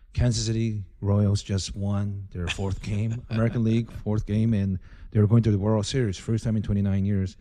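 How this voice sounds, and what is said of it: Speaking in a low voice. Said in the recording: “I'm talking kind of in a low voice because it's probably like 1 in the morning”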